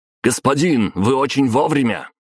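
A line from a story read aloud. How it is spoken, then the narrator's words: Shouted by guard. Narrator (Russian): выкрикнул Марат, один из гвардейцев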